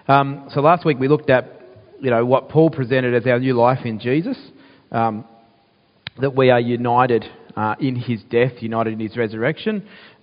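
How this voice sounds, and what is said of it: Crackly, croaky voice. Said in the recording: “sorry about my voice, it's still crackly and croaky”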